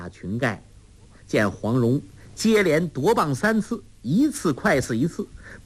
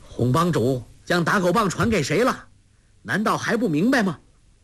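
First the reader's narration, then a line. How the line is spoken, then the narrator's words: Loud shout. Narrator (Chinese): 郭靖高声叫道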